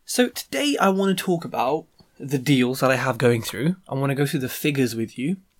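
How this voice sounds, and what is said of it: Deep, croaky sick voice. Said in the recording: “I'm ill... my voice is terrible... I sound a bit, a bit like Phoebe from Friends when she was singing Smelly Cat, a bit like Barry White”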